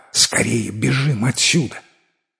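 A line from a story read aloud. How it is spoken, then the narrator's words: Fairy's whisper. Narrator (Russian): фея прошептала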